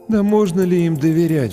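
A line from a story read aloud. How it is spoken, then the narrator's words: Sighing. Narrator (Russian): вздохнул кто-то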